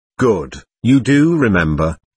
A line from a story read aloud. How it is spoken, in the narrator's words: he said